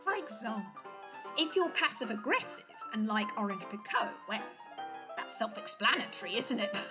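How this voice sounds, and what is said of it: English accent. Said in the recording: “I can't help but notice your accent. It's English.”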